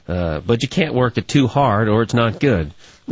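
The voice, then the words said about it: Put-on Louisiana accent. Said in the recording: “I'll do Louisiana accent.”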